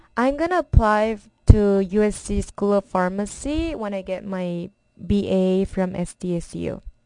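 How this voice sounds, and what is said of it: Strong non-native English accent. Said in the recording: “I have a strong accent because English is not my first language. My first language is actually Korean ... I have a strong accent.”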